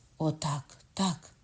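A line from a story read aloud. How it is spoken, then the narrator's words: Elated exclamation. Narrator (Ukrainian): скрикнув Ламоль в сп'янінні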